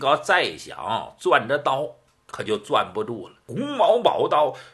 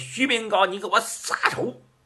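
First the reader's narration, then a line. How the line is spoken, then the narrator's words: Old monk shouting. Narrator (Chinese): 这老和尚喊了一声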